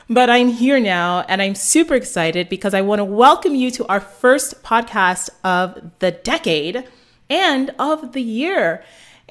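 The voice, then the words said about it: Scratchy throat, congested from cold. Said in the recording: “I have a little bit of a cold ... my throat is a little scratchy today ... dealing with this head cold”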